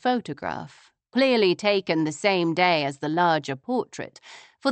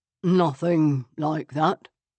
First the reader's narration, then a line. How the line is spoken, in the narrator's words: he said in a hollow voice